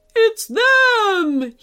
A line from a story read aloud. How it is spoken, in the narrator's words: He cried